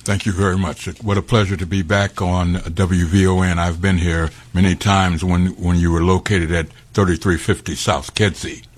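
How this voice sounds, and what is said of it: Rich broadcaster's radio voice. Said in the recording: “you definitely got a radio voice”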